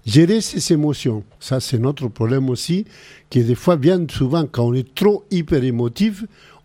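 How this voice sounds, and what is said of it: Speaks French with a foreign accent. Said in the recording (French): “Moi, j'ai un accent, j'adore mon accent, j'aurais pu le changer ... moitié chilien, moitié français”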